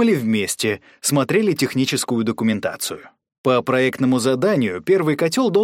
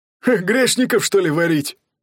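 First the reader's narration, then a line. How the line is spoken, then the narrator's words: Laughing. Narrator (Russian): засмеялся шутки технолог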